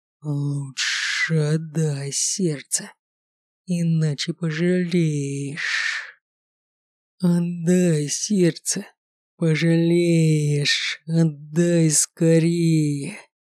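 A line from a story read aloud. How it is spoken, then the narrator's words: Vile hissing inner voice. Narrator (Russian): Продолжал шипеть в голове мерзкий голос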